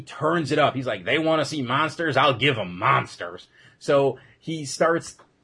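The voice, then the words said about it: Bad put-on redneck accent. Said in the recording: “the really bad redneckish accent I'm putting on”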